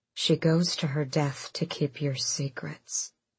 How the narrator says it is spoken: Sorrel said quietly, but not weakly

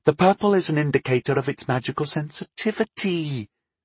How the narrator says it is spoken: she explained testily

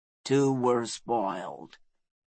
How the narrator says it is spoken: he said, his voice low, rumbling like distant thunder

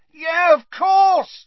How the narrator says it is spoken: said Harry loudly

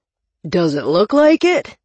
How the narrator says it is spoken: Cleaver growled

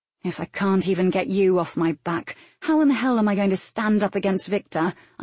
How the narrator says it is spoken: I grumbled

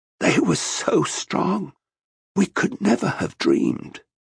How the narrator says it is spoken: In a croaking voice, Draken Corrin said

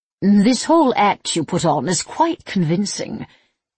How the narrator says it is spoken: Vianca purred

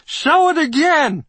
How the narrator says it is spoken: writer Wally Wolodarski shouted with ironic glee

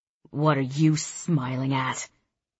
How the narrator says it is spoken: Brian snarls at me

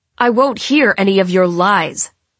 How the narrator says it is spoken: he shouts at me

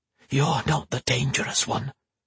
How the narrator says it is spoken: he hissed

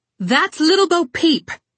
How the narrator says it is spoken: Red yelled

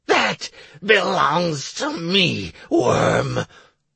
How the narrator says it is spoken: Commandant growled with hatred

